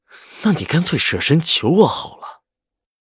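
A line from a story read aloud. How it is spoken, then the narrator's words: Furious, through gritted teeth. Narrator (Chinese): 赵世南的心被堵得要发疯，咬牙道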